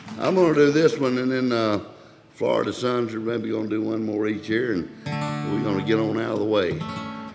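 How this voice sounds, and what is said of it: Hoarse, nearly lost voice. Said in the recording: “my voice is about gone”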